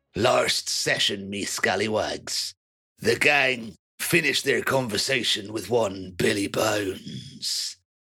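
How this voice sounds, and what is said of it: Pirate character voice. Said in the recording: “in a piratey voice”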